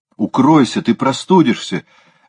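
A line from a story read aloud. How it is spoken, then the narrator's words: Exclamation. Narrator (Russian): воскликнула Ализа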